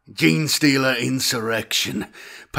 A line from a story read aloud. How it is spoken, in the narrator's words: panted